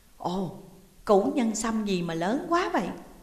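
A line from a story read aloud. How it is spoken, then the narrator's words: Old man's surprised exclamation. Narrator (Vietnamese): Lão thủ quỷ ngạc nhiên thốt lên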